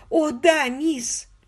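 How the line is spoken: Voice drowned in sobs. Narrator (Russian): голос миссис Эшли снова утонул в рыданиях

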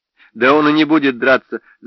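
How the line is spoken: Laughing. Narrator (Russian): засмеялся Рэг

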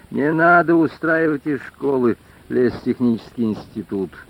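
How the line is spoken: Gloomy. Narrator (Russian): мрачно сказал Женька

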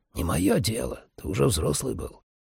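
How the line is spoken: Grumbling mutter. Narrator (Russian): пробурчав

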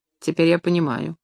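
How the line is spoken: Cold voice. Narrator (Russian): холодно проговорил он

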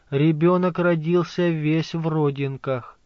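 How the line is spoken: Quiet. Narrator (Russian): она тихо сказала

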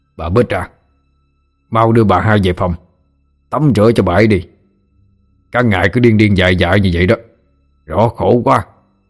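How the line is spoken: Man's shout. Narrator (Vietnamese): Giọng một người đàn ông quát lên

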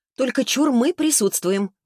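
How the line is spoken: Exclaimed. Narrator (Russian): воскликнула Таисия

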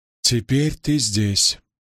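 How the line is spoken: Calm. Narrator (Russian): спокойно произнесла Эгвейн

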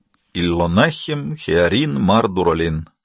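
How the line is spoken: Sad. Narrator (Russian): грустно сказал

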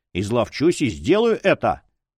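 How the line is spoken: Tearful nasal snort. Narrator (Russian): Страдающий фанатик хмыкнул носом

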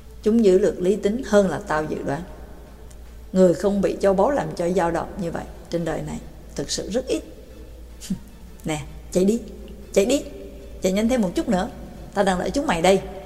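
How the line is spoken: Softly spoken. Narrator (Vietnamese): Người trẻ tuổi khẽ nói

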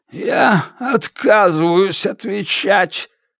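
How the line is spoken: Growled. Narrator (Russian): Прорычал

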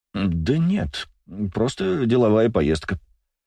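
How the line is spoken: Mumbling. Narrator (Russian): промямлил

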